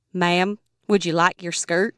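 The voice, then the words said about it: Imitated heavy Southern accent. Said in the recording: “terrible Southern accent... huge Southern accent”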